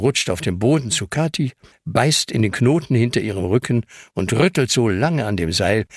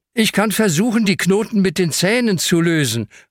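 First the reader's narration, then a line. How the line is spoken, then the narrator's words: Calling out. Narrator (German): ruft Hanna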